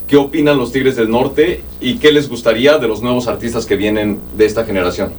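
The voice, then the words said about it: Radio announcer voice. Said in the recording (Spanish): “esto sí tiene voz de locutor ... Este sí habla como el Jaguar Martínez”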